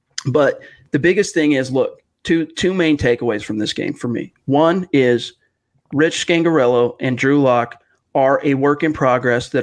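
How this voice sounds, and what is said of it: Hoarse, froggy voice. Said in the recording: “I'm fighting a little bit of a cold, so my voice is kind of got a frog in my throat type sound”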